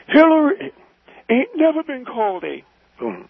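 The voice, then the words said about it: Impersonating Reverend Jeremiah Wright. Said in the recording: “don't impersonate. ... that's the way you sounded.”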